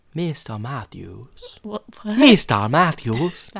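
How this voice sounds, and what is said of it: Character voice with different accent. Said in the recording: “That's a very different accent that you're using this week.”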